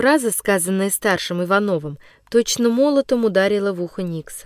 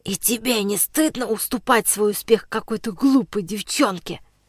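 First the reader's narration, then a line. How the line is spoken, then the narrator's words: Whispering in the ear. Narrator (Russian): шептал он на ухо Никсу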